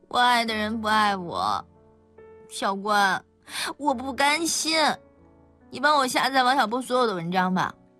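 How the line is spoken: Blunt, tearful. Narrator (Chinese): 曲小潇好像是哭过，而曲小潇也直截了当地承认

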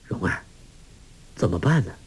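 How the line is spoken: Low voice. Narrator (Chinese): 郭靖低声说

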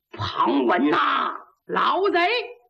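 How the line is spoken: Shouting. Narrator (Chinese): 小焦玉还喊呢

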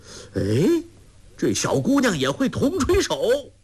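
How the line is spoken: Calling out. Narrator (Chinese): 那胖盖跟着叫道

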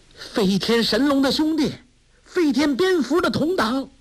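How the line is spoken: Calling out. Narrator (Chinese): 梅超风叫道

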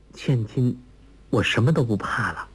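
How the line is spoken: Low voice. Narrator (Chinese): 黄蓉低声说

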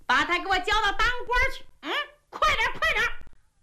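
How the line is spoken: Rascal shouting. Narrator (Chinese): 姓胡那个地赖喊上了

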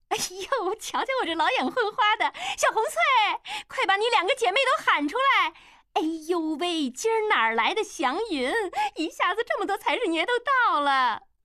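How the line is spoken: Beaming old madam. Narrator (Chinese): 老鸨子…立马眉开眼笑

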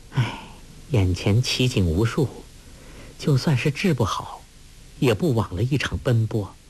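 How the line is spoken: Sighing. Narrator (Chinese): 黄蓉叹道

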